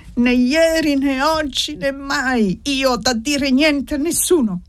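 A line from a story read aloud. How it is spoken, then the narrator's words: Hoarse shout. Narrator (Italian): Ella gridò con voce rauca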